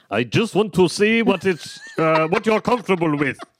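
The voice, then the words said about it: Put-on German accent. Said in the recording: “I can't do a German accent. ... Can you do one for me”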